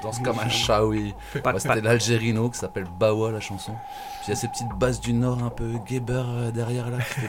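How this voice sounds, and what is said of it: Slight regional French accent. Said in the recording (French): “t'as un petit accent”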